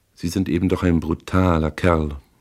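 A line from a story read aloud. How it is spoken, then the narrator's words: Calm. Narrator (German): sagte sie ruhig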